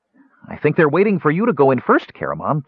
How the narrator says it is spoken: Tass said cheerfully

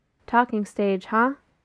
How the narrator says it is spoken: Miranda says dryly

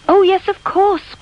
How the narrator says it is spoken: cried Charlotte

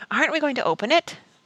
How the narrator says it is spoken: Barney said impatiently

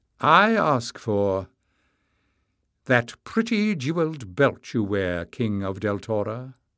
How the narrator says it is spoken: she said

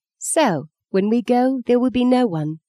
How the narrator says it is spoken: said softly

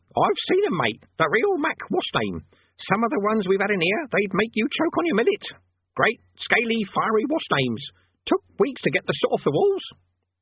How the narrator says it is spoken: it added, in an approving tone of voice

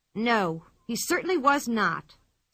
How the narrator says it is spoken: said the girl crossly

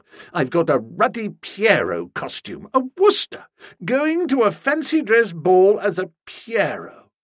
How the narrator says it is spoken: said, and laughed shortly

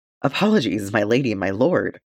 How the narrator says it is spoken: she stammered

